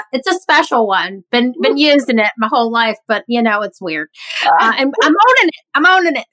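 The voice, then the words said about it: Nasal Midwestern-Southern twang. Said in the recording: “My voice is like such. I call this Fran Drescher on a farm. I'm half Midwestern, half Southern. And so it's like a nasal twang”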